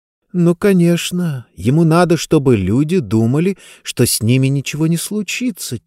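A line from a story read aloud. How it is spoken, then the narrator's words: Quiet. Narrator (Russian): тихо проговорила она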